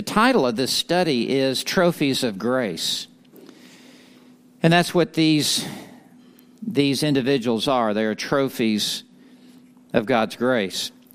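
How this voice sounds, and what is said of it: Texas accent. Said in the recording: “that's the best I can do with the Texas accent.”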